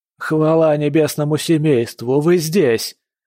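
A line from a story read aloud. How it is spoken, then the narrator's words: Loud interruption. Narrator (Russian): Цисами громко перебила его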